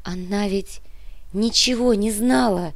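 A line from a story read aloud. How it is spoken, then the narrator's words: Woman sobbing. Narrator (Russian): всхлипнула женщина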